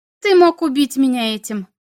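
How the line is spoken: Trying to sound calm. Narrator (Russian): сказала она, надеясь, что ее голос звучит спокойно

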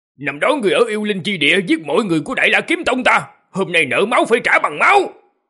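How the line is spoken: Middle-aged man's loud shout. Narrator (Vietnamese): Một trung niên nam tử quát to

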